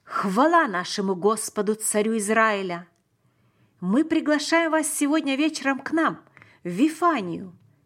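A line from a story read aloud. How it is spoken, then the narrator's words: Loud exclamation. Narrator (Russian): громко воскликнул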